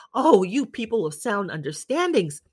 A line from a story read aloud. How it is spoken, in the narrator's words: I replied, smiling